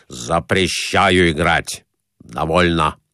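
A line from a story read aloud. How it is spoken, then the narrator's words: Stern. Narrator (Russian): Муж строго сказав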